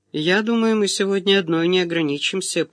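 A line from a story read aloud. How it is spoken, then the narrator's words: Lazy, lordly drawl. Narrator (Russian): проговорил он по-барски лениво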